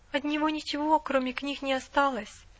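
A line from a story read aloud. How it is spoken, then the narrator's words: Timid. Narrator (Russian): робко сказала миссис Мёрфи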